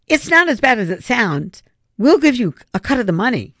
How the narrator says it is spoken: Griffin quickly stammered

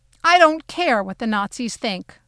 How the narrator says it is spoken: I shouted back with more force than I meant to use

